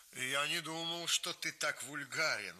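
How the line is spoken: Exclamation. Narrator (Russian): воскликнул Эмиль

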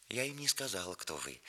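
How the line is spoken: Timid. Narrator (Russian): начала она робко

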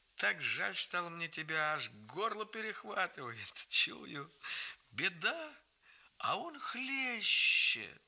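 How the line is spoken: Laughing, silky and gentle. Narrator (Russian): смеясь говорил

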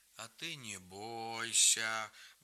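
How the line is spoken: Deep-voiced old woman. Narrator (Russian): басом сказала бабушка

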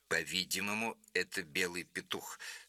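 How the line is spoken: Plain. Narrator (Russian): сказал он

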